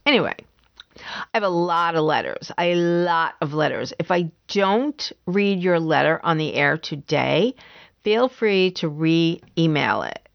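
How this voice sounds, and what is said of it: Unsteady voice cutting in and out. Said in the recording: “my voice is going in and out ... if my voice starts getting shaky”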